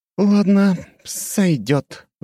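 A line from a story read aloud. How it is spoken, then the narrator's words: Sighing. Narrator (Russian): вздохнула Рэйчел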